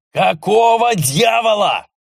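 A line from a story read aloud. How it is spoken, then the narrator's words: Furious roar. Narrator (Russian): Заорал разъяренный Эрнеста, на глазах которого пытались убить его лаборантов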